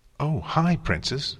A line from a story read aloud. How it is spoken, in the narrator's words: Spike said happily